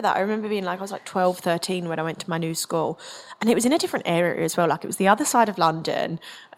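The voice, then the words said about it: Slight Essex accent. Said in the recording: “my accent, I obviously have a slight Essex twang”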